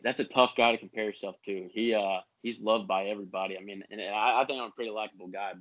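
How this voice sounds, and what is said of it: Southern twang accent. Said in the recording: “You kind of got that little southern twang accent.”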